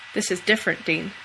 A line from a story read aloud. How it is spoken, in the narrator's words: says Bobby